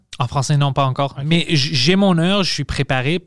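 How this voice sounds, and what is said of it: Non-native accent in French. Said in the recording (French): “c'est juste à cause de mon accent. Je parle assez le français pour que je puisse communiquer.”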